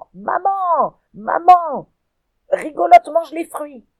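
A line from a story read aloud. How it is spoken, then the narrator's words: Screamed. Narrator (French): hurle Robin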